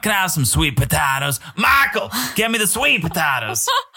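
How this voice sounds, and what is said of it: Imitates another person's voice. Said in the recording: “launching into an Angela accent”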